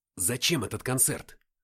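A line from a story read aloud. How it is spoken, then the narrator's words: Angry whisper. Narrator (Russian): Шепотом, но злобно спросил я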